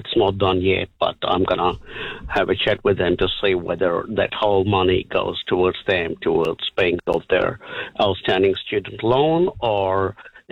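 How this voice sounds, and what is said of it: Hard-to-place foreign accent. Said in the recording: “I love your accent. What is it?”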